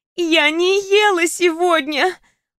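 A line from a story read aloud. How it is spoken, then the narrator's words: Groaned reply. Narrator (Russian): простонала она в ответ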